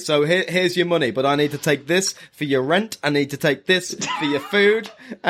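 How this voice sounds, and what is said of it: Aggressive character voice with odd accent. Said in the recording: “I like aggressive Misty ... don't know what that accent is”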